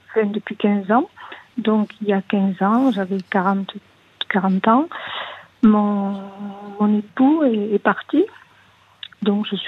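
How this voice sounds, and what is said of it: Small voice, southern French accent. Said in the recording (French): “Vous avez une toute petite voix ... Avec un petit accent euh, du sud ah, De Toulouse”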